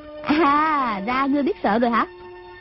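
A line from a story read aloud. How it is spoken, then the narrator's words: Girl's sneering question. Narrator (Vietnamese): Thiếu nữ cười khẩy hỏi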